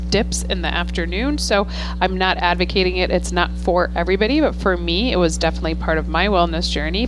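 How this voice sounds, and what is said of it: Slightly hoarse voice. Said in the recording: “you probably hear a little bit of my voice being hoarse because guess what season it is now ... mama screams and has to scream louder behind the mask. So guess what? I am screaming too loud.”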